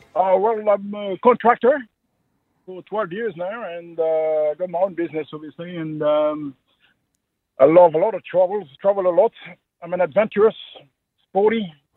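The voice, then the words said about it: French accent. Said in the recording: “What's that accent? ... French.”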